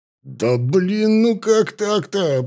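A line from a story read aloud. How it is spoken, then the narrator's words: Growled. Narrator (Russian): прорычал капитан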